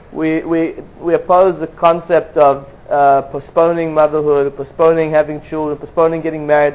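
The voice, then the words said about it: Non-American accent. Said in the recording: “you could hear from my accent, I'm not originally American”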